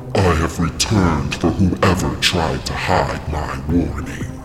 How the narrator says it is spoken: Krampus growled

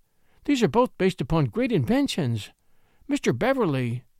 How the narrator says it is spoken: I exclaimed

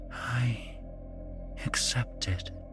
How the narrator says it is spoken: she whispered

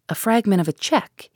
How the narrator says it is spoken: exclaimed

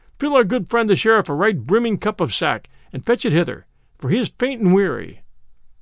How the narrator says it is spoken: cried Robin

